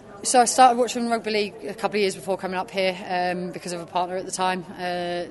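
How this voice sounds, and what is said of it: Southern English accent. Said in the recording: “That's not a Salfordian accent. ... it's definitely not a Salfordian accent. ... Ipswich way, so down south.”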